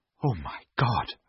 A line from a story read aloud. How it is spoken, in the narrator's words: whispered